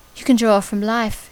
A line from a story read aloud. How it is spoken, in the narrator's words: she says